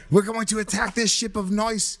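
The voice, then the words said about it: Put-on Somali accent. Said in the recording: “This is my Somali accent.”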